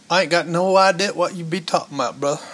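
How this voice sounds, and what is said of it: Put-on Tennessee Southern accent. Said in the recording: “a little bit of a Tennessean accent, you know, kind of slips on my brother ... That's actually really good.”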